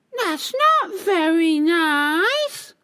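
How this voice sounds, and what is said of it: Very cross voice. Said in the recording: “in a very cross voice”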